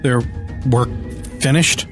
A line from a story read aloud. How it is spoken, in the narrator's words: I muttered in despair